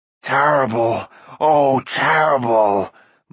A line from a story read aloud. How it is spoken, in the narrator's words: moaned Gurgi